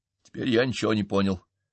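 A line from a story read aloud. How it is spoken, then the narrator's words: Plain. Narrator (Russian): сказал я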